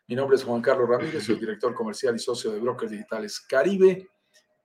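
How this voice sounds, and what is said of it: Colombian Spanish accent. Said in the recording (Spanish): “sentirás por mi acento, soy colombiano”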